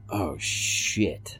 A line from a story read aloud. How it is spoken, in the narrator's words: I hissed